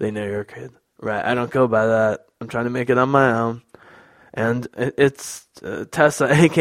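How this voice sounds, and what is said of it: Usual voice. Nothing is said of it.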